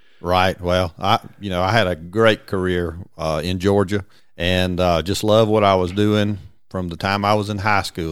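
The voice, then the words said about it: Noticeable regional American accent. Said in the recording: “everybody's going to know by your accent right away because that's something you can't hide ... everybody tells me I do ... Everybody from New England”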